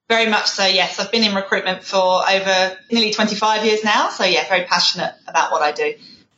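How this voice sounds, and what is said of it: English accent. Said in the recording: “And you have an accent... I can't shake the English accent”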